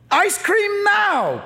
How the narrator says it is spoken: PT wails

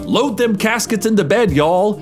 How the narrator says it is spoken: he shouted

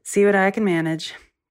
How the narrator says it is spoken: He sighed and said

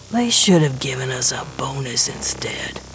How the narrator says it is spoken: Gershwin mutters

